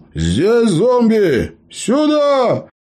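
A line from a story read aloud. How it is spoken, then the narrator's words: Loud shout. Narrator (Russian): громко крикнул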